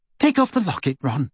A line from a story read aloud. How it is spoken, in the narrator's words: Hermione said, her voice unusually high